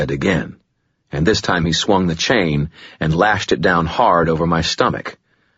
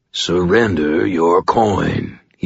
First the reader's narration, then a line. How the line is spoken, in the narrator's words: he purred